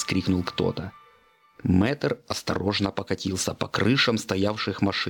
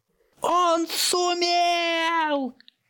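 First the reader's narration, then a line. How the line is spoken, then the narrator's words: Joyful shout, host. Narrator (Russian): радостно закричал ведущий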